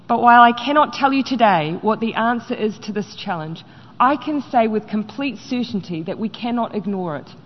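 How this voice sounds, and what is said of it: New Zealand accent. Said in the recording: “I used to kind of think the New Zealand accent was cute. It's freaking annoying to me now.”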